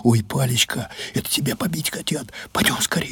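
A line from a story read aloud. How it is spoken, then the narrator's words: Whisper. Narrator (Russian): зашептала Люба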